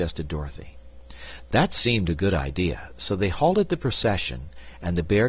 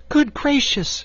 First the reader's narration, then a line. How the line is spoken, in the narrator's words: cried Dorothy